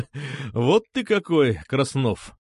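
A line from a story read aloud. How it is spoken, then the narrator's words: Laughing. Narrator (Russian): снова засмеялся Чердынцев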